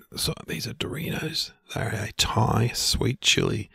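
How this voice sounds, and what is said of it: Whispering. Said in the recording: “you got to whisper ... Whisper. ... when you whisper”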